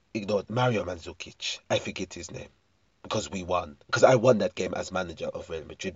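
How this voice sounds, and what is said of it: Slightly wobbly put-on French accent. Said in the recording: “My French accent has gone slightly awry.”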